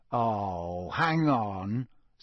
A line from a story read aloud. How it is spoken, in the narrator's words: said Harry slowly